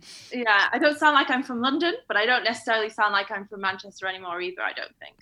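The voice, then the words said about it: Mild northern English accent. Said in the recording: “I've lost a bit of my accent as well ... I heard a northern, I heard a northern accent”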